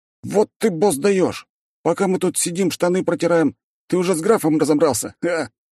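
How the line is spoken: Exclamation. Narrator (Russian): воскликнул

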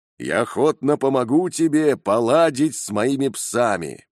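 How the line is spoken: Plain. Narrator (Russian): ответил охотник

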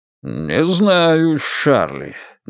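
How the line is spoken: Doubtful drawl, father. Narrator (Russian): недоверчиво протянул тогда отец

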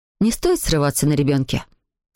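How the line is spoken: Mother, very calm. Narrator (Russian): сказала мама очень спокойно

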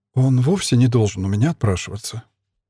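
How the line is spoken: Soft. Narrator (Russian): мягко сказала Мила

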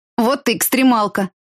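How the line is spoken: Amused snort. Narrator (Russian): хмыкнула соседка по парте

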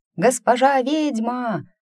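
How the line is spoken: Young ringing shout from outside. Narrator (Russian): прокричал снаружи чей-то молодой и на редкость звонкий голос

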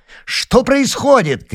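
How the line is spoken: Shouting while running. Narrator (Russian): крикнул он на бегу

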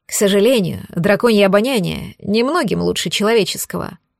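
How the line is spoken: Sighing. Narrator (Russian): вздохнул он

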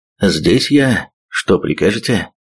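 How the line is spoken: Husky voice, close to ear. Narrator (Russian): Глуховатый с хрипотцой голос прозвучал у самого уха

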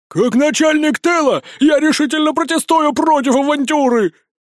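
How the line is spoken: Shrill squeal. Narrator (Russian): завизжал Жорик

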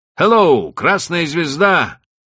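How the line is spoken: Shout from boat. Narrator (Russian): крикнул один из сидевших в шлюпке

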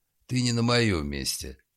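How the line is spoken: Rude reply. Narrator (Russian): грубо ответил Гуров

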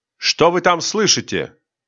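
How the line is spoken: Plain. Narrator (Russian): спросил офицер

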